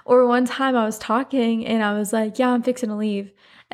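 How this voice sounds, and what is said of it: Thick Southern country accent. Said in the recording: “such a Southern thing ... my accent is getting so thick. My customer service voice is so country”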